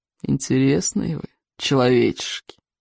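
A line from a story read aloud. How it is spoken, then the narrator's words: Drawn-out drawl. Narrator (Russian): протянул он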